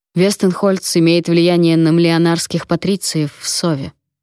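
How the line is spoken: Grim. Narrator (Russian): мрачно сказал Вонвальд

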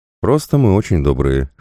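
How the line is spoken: Snort. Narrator (Russian): хмыкнул

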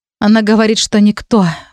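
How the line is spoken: Sighing. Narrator (Russian): вздохнула я

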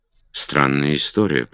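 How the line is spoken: Muttered. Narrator (Russian): пробормотал он

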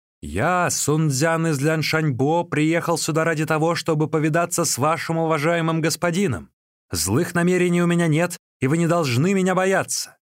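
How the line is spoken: Shouted. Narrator (Russian): Сун Цзян закричал

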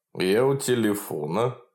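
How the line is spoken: Solid low bass. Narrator (Russian): с солидным баском сказал Иван Данилович

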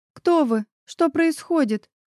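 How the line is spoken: Near-hysterical sob. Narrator (Russian): на грани истерики всхлипнула

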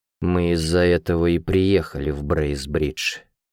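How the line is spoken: Slow speech. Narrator (Russian): медленно проговорил я

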